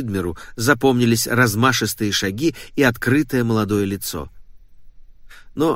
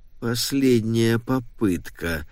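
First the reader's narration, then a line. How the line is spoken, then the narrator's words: Muttering. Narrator (Russian): пробормотал мистер Уидмер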